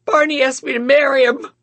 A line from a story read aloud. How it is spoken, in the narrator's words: I sobbed